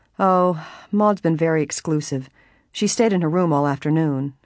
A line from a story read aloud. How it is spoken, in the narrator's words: Helen added dryly